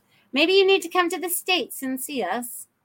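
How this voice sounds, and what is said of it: Sudden put-on accent. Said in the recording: “I don't know where the accent just came from”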